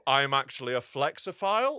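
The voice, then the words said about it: Haughty, smug, posh voice. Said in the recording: “it's that voice. It's a haughty, pretentious voice. ... It's a smug, posh voice.”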